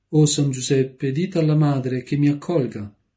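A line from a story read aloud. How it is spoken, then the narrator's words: Young girl exclaiming. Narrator (Italian): la giovane ragazza uscì in questa esclamazione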